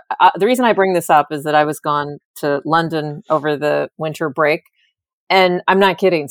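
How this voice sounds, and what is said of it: American accent. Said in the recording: “doesn't my accent give it away? I'm from the United States.”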